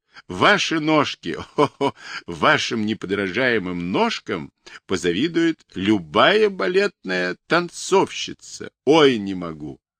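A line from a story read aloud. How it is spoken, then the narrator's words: Laughing uncontrollably. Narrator (Russian): продолжая хохотать и не имея сил успокоиться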